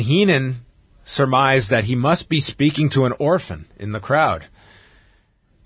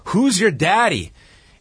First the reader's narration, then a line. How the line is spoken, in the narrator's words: yelled at a fan